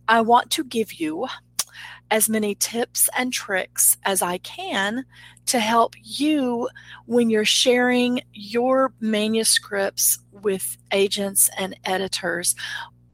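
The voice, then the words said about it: Rural American hick accent. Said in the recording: “The hick accent is starting to come out a little bit.”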